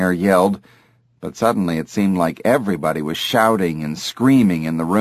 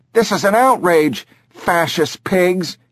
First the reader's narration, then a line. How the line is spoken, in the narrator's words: shouted as they cuffed him